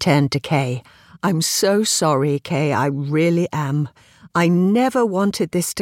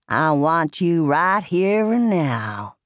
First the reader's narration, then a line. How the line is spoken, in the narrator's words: purred Wood